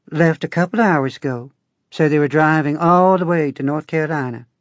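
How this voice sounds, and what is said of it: Twangy local rural accent. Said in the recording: “She had a local accent, which sounded like a badly tuned banjo.”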